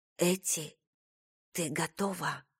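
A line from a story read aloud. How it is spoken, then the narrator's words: Whisper. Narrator (Russian): прошептала Айрис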